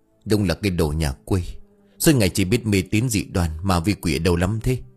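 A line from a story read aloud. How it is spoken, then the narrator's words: Muttering. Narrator (Vietnamese): Miệng của ông lẩm bẩm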